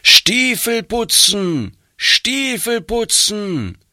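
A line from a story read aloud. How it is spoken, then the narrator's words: Loud calling. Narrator (German): laut rufen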